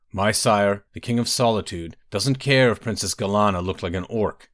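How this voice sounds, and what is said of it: Strange Nordic-sounding male accent. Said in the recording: “a man with a strange accent, a Nord”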